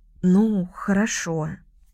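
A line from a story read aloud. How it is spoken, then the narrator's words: Hesitant agreement. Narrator (Russian): согласилась совсем неуверенно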